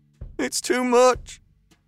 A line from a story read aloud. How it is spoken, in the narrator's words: said, nearly sobbing